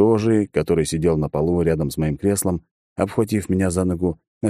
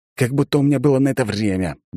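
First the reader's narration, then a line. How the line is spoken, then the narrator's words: Muttering. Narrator (Russian): буркнул я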